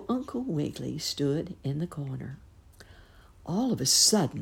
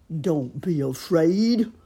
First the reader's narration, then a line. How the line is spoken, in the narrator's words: bellowed the alligator